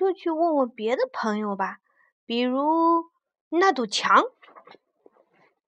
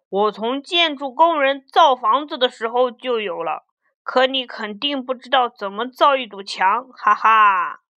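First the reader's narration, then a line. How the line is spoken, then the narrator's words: Booming loud voice. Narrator (Chinese): 墙的声音很洪亮，他说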